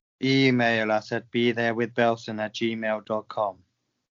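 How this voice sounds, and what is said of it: Mock-serious formal voice. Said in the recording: “That was my serious voice.”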